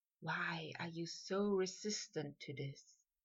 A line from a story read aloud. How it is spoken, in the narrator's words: whispered